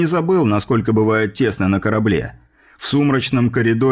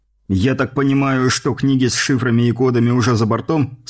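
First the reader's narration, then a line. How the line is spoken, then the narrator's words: Plain question. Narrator (Russian): спросил я пленного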